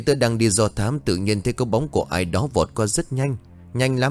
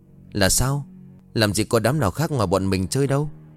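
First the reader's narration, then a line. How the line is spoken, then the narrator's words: Trembling speech. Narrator (Vietnamese): Anh Vũ bấy giờ run rẩy bảo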